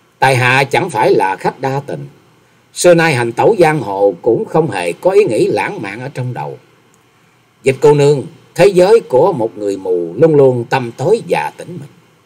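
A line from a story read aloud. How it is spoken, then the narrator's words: Slow, smiling. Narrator (Vietnamese): Nhậm Xương Bạch lại mỉm cười chậm rãi rồi nói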